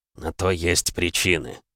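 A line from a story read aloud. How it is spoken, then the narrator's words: Smirking grunt. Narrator (Russian): хмыкнул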